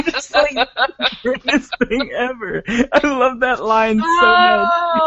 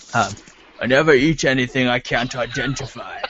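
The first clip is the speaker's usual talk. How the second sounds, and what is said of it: Sean Connery impression. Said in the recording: “Sean Connery ... I got to do it in my impression.”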